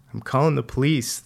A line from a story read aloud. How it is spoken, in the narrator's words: the kid said in a cracked voice